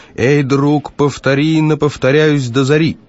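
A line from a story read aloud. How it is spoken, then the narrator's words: Shout. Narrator (Russian): Он крикнул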